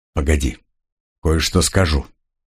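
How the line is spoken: Quiet speech. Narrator (Russian): главный тихонько сказал

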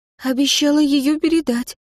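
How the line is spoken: Frightened. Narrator (Russian): испуганно ответила она

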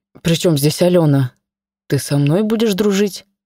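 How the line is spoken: Uncertain. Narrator (Russian): Неуверенно произнес Арсений

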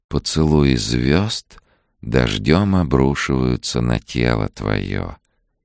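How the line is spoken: Tender, poetic recitation. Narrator (Russian): нежно проговорила Сьюзен, словно читая стихи

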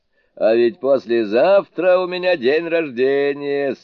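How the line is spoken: Laughing. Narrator (Russian): смеясь сказал черный человек

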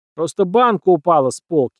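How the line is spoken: Hopeful shout. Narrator (Russian): выкрикнул, надеясь, что они поверят

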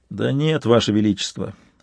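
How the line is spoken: Dejected reply. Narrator (Russian): уныло отозвался Интагар

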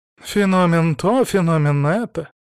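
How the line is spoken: Sighing. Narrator (Russian): вздохнул Антон

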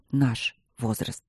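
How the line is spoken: Quiet. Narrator (Russian): добавил он тихо

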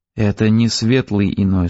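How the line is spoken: Plain. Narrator (Russian): сказал я

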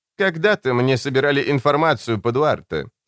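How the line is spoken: Plain. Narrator (Russian): сказала она

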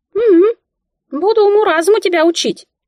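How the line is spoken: Squeaky voice. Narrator (Russian): пропищала Мика

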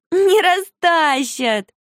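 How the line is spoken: Laughing. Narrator (Russian): засмеялась Марфуша

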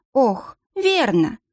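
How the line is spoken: Sighed. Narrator (Russian): вздохнула Надежда

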